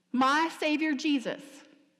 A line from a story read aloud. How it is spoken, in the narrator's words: cried, stunned to see him, stunned to personally meet him